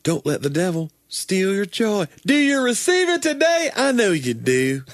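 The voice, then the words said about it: Joel Osteen impression. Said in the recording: “You have your own Joel Osteen impression? ... Or was that it?”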